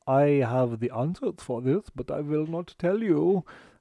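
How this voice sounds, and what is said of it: Put-on German accent. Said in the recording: “a German man ... that was a very very borderline risky accent there”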